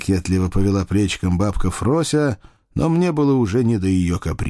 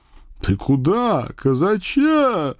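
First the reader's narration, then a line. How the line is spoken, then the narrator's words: Butcher's booming drone. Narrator (Russian): прогудел мясник Павлушечка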